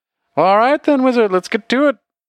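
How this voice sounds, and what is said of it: Character voice with a slipping accent. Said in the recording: “Cannot keep a fucking accent for the life of me.”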